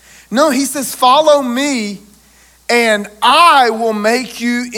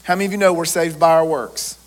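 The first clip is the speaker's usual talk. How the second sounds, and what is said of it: Sarcastic delivery. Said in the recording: “that was sarcasm.”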